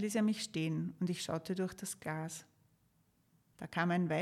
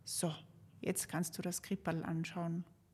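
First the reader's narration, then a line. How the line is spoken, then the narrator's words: Quiet, into the ear. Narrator (German): sagte er mir leise ins Ohr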